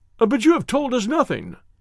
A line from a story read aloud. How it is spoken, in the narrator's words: cried the doctor